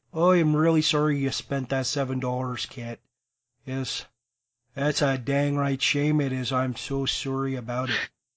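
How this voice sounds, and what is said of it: Put-on Canadian accent. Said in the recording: “You're getting good with your Canadian accents there. I've been practicing”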